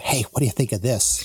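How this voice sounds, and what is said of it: Hushed golf commentator voice. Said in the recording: “In your golf course voice.”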